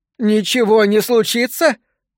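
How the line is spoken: Hysterical laughter. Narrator (Russian): Она вновь истерически расхохоталась

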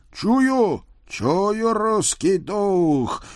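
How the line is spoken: Loud male shout. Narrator (Russian): громко вскричал мужской голос

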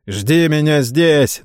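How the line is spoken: Mocking shout. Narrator (Russian): насмешливо крикнул сэр Роже

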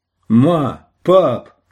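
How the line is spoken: Shouting across a room. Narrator (Russian): крикнул он в другую половину кафетерия

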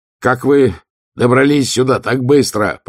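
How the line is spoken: Shouted. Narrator (Russian): прокричал он

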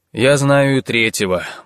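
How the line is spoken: Gloomy grumble. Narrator (Russian): буркнул он мрачно

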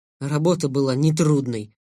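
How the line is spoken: Angry. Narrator (Russian): зло сказал я

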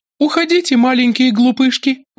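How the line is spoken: Exclaiming. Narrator (Russian): воскликнула она

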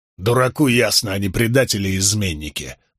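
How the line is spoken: Soldier grumbling. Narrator (Russian): проворчал один из солдат

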